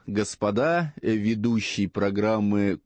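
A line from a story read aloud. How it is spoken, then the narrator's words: Menacing voice from above. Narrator (Russian): Голос откуда-то сверху грозно сказал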